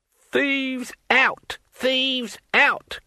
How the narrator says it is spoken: cackled his elderly companion

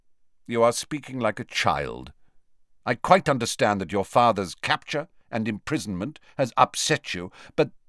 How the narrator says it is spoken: Snape said coldly

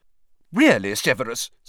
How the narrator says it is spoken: said Professor McGonagall sharply

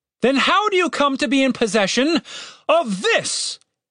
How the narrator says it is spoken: He bellowed

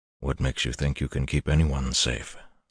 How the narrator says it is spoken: Luz Theron whispered in his head

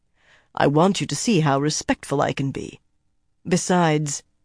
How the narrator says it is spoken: his tone became more serious

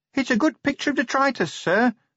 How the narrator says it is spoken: said Sergeant Littlebottom nervously

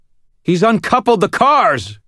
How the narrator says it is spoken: I shouted

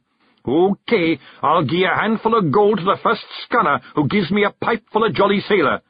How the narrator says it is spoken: yelled

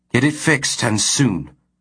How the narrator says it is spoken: Sands said in a crisp voice

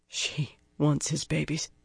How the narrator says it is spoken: the woman mumbled

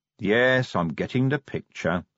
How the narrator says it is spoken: said Vimes wearily

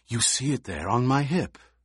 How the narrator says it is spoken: Fade Rautha whispered

